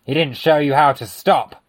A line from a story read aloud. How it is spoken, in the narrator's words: the policeman said gruffly